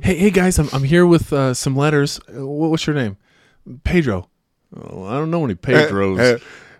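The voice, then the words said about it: Put-on Missouri accent. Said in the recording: “I can see him doing it with like a Missouri accent ... whenever we want to make someone evil, we give them a Missouri accent”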